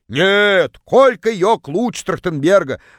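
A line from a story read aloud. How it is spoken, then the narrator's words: Distant yell. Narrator (Russian): Заорала одна из них из самого дальнего угла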